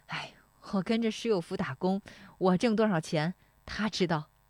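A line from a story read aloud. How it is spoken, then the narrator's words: Laughing. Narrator (Chinese): 石丽华笑说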